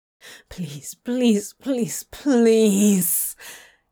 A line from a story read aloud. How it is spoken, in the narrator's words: he moaned pitifully